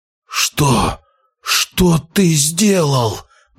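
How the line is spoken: Horrified hoarse rasp. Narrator (Russian): прохрипел вампир, в ужасе

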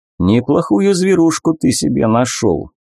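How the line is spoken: Father's mildly envious grumble. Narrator (Russian): с легкой завистью проворчал папа

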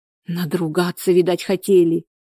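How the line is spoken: Frightened. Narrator (Russian): испуганно

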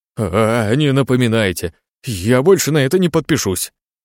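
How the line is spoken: Exclaimed. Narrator (Russian): воскликнул

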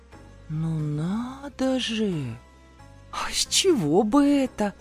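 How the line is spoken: Snorting singsong drawl. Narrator (Russian): фыркнув, протянула я нараспев

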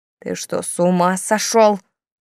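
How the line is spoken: Hiss. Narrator (Russian): прошипела Камилла

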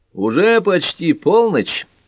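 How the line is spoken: Cheerful reminder. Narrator (Russian): весело напомнил Джим

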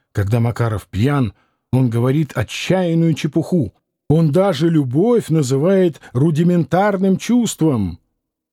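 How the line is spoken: Skeptical, eyebrows raised. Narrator (Russian): сказала Лидия, подняв брови

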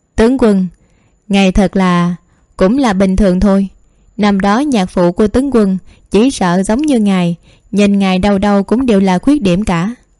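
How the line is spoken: Laughing, raised voice. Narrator (Vietnamese): Nhất Nặc Đại Sư cười to, cất tiếng cao giọng nói

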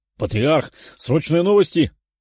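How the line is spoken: Exclaimed, guard chief. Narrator (Russian): воскликнул начальник родовой стражи Антонов

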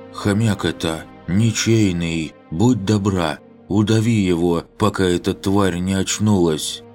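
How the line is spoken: Indistinct mumbling girl. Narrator (Russian): девушка не очень разборчиво прошамкала

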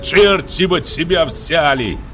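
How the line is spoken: Startled shout. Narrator (Russian): крикнул я, услышав звон клетки и писк попугая

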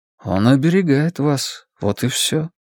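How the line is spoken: Soft interjection. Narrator (Russian): мягко вставил Стью

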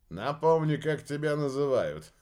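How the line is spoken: Laughing elderly man. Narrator (Russian): рассмеялся патриарх

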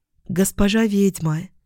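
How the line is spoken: Quiet call. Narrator (Russian): тихо позвала она

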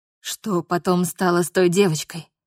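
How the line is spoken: Barely audible, clear in silence. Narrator (Russian): Еле слышно спросил он, но из-за повисшей в воздухе тишины голос его прозвучал отчетливо

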